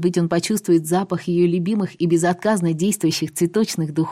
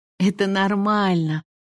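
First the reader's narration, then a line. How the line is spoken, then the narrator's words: Snorting. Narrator (Russian): фыркнула она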